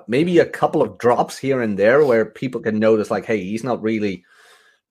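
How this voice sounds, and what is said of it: Dutch accent, TH pronounced as F. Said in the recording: “everyone in the Netherlands is talking like you ... it's TH, not F ... that accent ... I have certain trouble with the TH”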